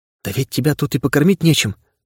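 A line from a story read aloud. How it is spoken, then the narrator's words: Muttered. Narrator (Russian): пробормотала Анна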